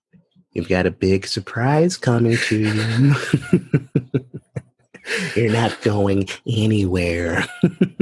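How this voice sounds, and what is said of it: Jack Nicholson / Heath Ledger Joker impression. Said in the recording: “my Jack Nicholson voice. I was actually doing Heath Ledger as the Joker voice. ... they kind of are the same”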